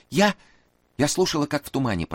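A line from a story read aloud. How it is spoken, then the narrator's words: Faint babbling. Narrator (Russian): пролепетала она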